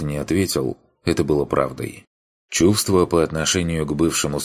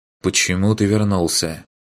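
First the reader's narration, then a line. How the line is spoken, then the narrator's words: Forced calm question. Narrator (Russian): спросил, стараясь, чтобы голос прозвучал спокойно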